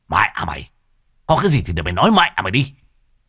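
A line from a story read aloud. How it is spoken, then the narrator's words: Near-shouting. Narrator (Vietnamese): Lão Thiết nói như quát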